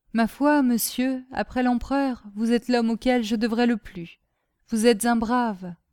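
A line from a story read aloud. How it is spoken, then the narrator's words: Simple voice. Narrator (French): lui dit d'une voix simple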